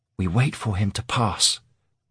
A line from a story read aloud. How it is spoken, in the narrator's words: Aaron whispered